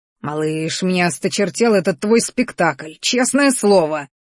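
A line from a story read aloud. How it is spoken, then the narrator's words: Angry roar. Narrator (Russian): взревел Арагон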